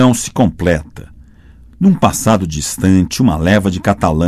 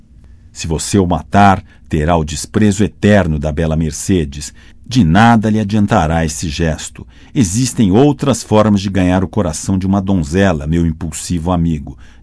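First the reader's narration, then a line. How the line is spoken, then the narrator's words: Plain. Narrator (Portuguese): disse Caderousse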